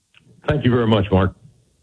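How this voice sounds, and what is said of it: Deep polished radio announcer voice. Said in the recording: “radio voice, America. you have a radio voice.”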